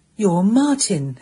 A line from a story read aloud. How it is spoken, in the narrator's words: Angela exclaimed